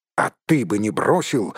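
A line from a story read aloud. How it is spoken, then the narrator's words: Snapping retort. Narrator (Russian): огрызнулся Дори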